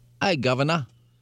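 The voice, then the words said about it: Exaggerated put-on Cockney accent. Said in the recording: “What about a Cockney? ... That's a little Dick Van Dyke-ish.”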